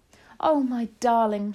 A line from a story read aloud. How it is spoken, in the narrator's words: she cried